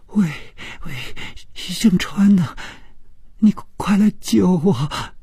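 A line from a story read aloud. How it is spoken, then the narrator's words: Crying, terrified voice. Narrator (Chinese): 这声音充满了哭泣，并且非常的恐惧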